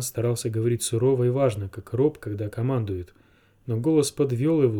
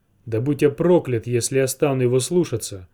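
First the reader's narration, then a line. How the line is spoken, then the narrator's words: Roaring. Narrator (Russian): взревел Миккин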